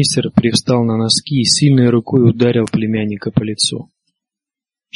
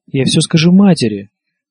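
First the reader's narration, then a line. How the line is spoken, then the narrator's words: Exclamation. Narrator (Russian): воскликнул Джеффри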